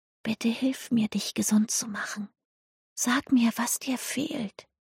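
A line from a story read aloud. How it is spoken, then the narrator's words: Whispered. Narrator (German): flüsterte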